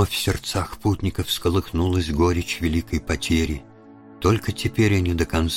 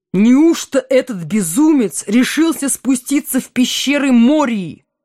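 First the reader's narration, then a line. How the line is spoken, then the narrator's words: Exclaimed. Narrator (Russian): воскликнул Селеборн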